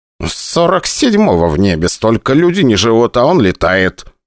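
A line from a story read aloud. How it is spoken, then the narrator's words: Grumbling. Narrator (Russian): ворчал Швабрин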